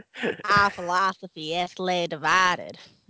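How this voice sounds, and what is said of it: Crotchety old Southern man accent. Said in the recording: “Weird Southern? ... That sounded like just like old school crotchety Southern man that's going to kill you.”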